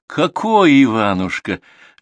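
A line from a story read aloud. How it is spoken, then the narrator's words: Laughing. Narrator (Russian): рассмеялась Оля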